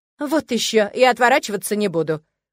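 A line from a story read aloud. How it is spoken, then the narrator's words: Petulant shout. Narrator (Russian): капризно выкрикнул Эдмонд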